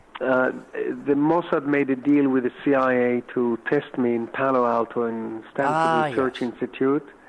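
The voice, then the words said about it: Israeli-accented English. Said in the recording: “an Israeli accent!”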